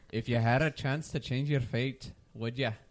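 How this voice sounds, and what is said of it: Put-on Scottish accent. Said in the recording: “Your Scottish voice. ... Pretty good, right? ... Pretty good. ... he can do a Scottish accent.”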